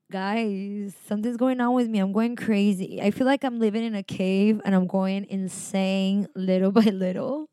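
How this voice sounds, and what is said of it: Miami accent with vocal fry. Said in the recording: “vocal fry. Miami accent”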